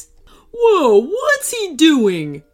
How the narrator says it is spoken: yelled the stall operator

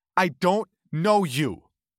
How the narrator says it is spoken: she said, almost in a scream

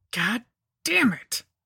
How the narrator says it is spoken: I grunted

